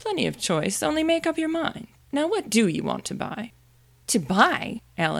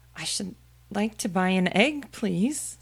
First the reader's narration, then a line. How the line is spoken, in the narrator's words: she said timidly